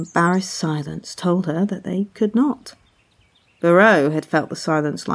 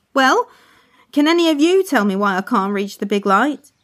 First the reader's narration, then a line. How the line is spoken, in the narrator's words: Curio loudly asked